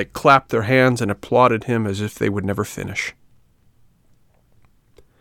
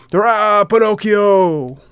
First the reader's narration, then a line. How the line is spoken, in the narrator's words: the boys stopped laughing and began to shout